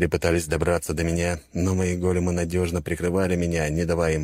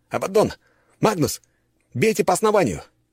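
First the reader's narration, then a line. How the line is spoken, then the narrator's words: Shout. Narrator (Russian): крикнул я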